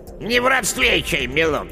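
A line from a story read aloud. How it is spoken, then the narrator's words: Unfriendly mutter. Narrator (Russian): неприветливо буркнула яга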